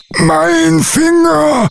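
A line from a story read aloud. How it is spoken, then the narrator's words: Troll wailing in pain. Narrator (German): jammerte der Troll und hüpfte vor Schmerz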